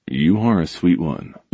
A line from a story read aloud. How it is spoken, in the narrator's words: he murmured